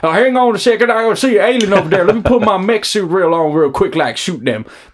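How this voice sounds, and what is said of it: Southern American farmer accent. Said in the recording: “a bunch of farmers from the south of America going ... That was too good, actually.”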